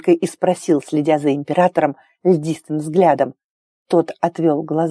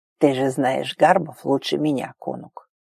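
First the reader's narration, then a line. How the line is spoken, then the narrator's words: Muttering. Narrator (Russian): пробормотал Агар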